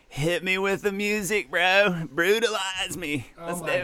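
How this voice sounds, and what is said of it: College stoner impression voice. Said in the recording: “that was my white college stoner impression”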